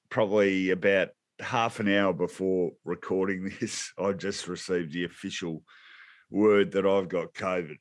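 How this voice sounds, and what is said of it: Unusually deep, sick-sounding voice. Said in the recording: “my voice is sounding a little bit deep ... I've got COVID”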